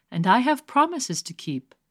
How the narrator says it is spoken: he said sadly

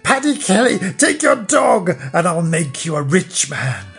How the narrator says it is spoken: She screeched and said

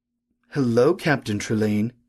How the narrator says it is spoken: he said softly, as if he were addressing a child

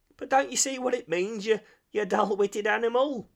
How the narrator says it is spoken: cried the rat impatiently

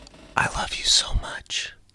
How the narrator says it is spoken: the other squallow whispered in his ear

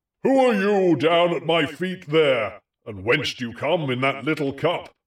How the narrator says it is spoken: The giant now looked down from the far height of his great eyes, roared out

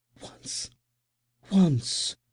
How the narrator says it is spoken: gasped

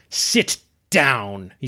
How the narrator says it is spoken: he spat

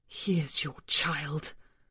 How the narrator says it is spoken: the creature hissed

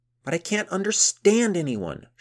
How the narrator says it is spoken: shouted Gunhild

